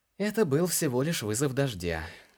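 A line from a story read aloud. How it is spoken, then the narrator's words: Sad explanation. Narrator (Russian): грустно пояснил Илар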